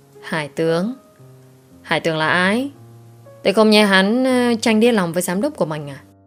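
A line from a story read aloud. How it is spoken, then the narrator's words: Sighing. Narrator (Vietnamese): thở dài một tiếng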